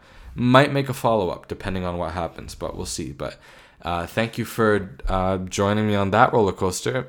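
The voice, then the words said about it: Tired, exhausted-sounding voice. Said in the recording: “you can tell by my tone that I'm very exhausted”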